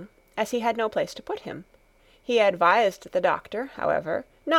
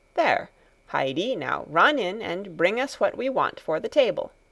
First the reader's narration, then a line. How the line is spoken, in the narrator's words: he said